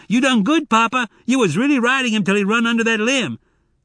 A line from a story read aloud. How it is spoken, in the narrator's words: Zek shouted